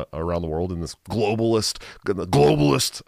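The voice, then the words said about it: Imitates another person's voice. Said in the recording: “Sorry, I had to do it my Alex Jones voice”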